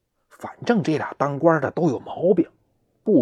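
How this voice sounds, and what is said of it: Usual voice. Nothing is said of it.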